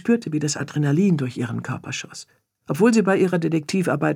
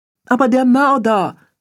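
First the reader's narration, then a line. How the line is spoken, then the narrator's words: Impatient shout. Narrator (German): rief Bea ungeduldig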